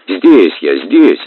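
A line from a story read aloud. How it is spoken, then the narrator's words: Cheerful reply. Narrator (Russian): ответил весело Кузьма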